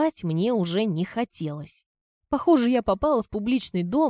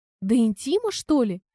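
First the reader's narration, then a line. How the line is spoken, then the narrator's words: Indignant blurt. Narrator (Russian): выпалила я возмущенно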